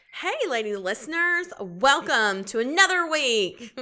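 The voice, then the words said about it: Exaggerated game show host voice. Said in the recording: “Like a game show host ... do that voice”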